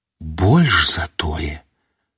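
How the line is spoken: Quiet answer. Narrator (Belarusian): ціха адказала надзея

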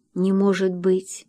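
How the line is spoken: Quiet. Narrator (Russian): тихо произнесла Тася

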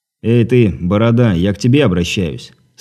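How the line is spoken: Calm and firm. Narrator (Russian): спокойно и твердо произнес Нефедов

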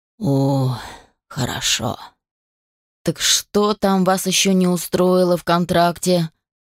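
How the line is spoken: Exhaling with a sigh. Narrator (Russian): снова выдохнул со словами

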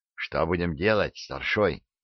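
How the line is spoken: Quiet speech. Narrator (Russian): Михась говорил тихо

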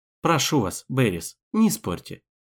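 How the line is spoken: Soft speech. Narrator (Russian): мягко сказала Румана

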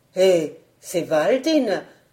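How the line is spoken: Laughing exclamation. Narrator (French): s'écria Christian en riant

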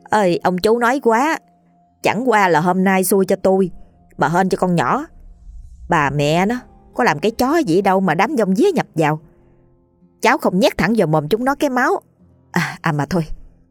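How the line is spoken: Smirking. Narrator (Vietnamese): Nhi nhếch mép nói

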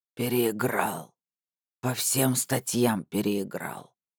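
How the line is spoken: Quiet hoarse wheeze. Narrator (Russian): тихо прохрипел он

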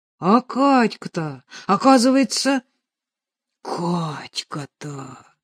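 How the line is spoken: Astonished exhale. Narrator (Russian): изумленно выдохнула Параша

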